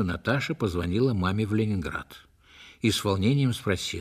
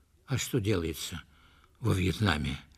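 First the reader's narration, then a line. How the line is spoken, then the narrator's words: Frightened question. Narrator (Russian): испуганно спросила Наташа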